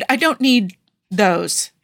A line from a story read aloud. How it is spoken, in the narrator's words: Tony stammered